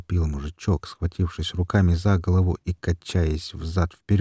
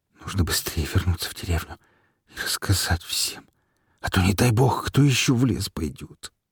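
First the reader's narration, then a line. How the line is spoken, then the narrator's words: Fearful trembling whisper. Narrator (Russian): От страха шепотом и с дрожью в голосе произнес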